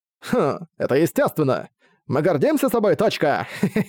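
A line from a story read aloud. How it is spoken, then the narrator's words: Cheerful, laughing loudly. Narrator (Russian): Её явно был в хорошем настроении и громко рассмеялся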